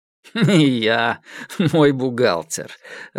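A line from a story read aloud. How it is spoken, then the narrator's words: Laughing. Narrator (Russian): рассмеялся Дорохов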